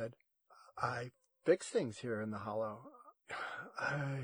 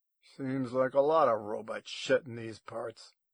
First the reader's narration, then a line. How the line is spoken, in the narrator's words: he growled